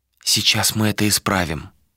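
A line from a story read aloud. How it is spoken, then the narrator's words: Whispered. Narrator (Russian): прошептала Галисия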